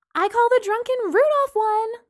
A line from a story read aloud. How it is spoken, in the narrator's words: Lana shouted